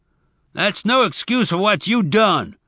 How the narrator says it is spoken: Zek said angrily

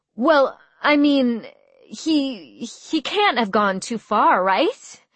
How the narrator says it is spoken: stammered

